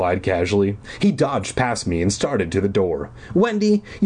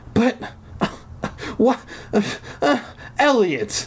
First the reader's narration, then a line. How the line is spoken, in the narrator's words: I sputtered